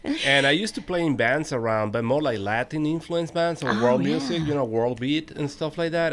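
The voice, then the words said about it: Venezuelan accent in English. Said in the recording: “I'm from Venezuela, so you notice an accent ... it's beautiful”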